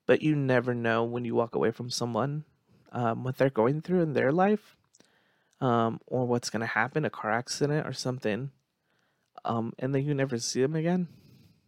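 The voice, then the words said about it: Teary, emotional voice. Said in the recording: “Get a little teary eyed.”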